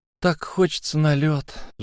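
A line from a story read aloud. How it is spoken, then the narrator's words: Sigh. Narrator (Russian): вздохнул Энакин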